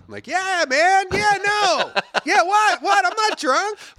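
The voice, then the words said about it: Higher-pitched voice. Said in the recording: “I talk like my voice is ... a little higher ... Gets like higher”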